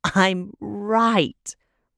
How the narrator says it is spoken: Rin cackled, tipping her head back and crowing at the small victory

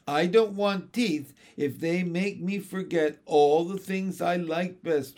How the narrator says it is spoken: wailed John

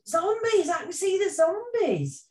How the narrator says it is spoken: somebody shouted

